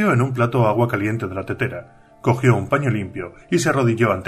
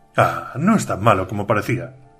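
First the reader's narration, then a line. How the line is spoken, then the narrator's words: Murmur. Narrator (Spanish): murmuró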